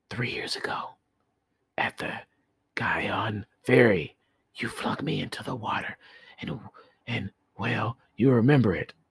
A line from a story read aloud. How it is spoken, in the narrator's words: the priest put his mouth to the frightened man's ear, and whispered